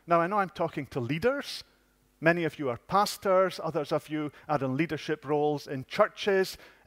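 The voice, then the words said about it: Yorkshire accent. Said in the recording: “I learned that in Yorkshire, where I was brought up. You can tell that by the accent, can you?”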